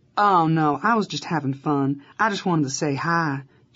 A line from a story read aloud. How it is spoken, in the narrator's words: she said in her adorable, thick Kentucky accent